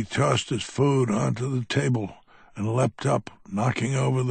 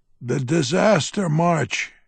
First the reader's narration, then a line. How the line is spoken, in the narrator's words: screamed over his shoulder